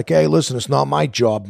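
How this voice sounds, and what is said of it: Put-on Boston accent. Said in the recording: “that whole Boston accent was very prominent”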